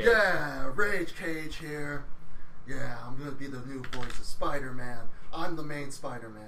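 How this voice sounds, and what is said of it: Nicolas Cage impression. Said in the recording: “good Nick Cage impersonation”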